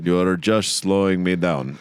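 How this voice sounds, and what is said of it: Attempted African accent sounding Russian. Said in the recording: “speaking with a Russian accent? ... that is still a Russian accent ... I can't do an African accent”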